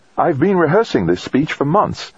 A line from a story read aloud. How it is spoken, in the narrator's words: she said, her voice high with excitement